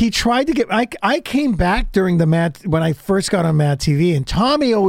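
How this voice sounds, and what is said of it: Usual voice. Nothing is said of it.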